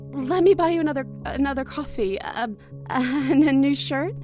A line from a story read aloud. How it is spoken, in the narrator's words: She asked, and nervously chuckled